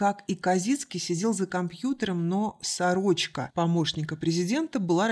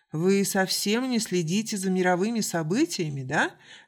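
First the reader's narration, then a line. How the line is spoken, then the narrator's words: Laughing. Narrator (Russian): рассмеялся Маркус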